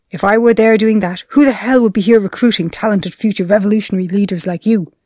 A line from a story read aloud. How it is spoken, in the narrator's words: he snapped